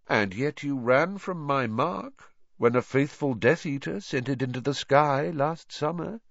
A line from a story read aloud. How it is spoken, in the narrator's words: said Voldemort lazily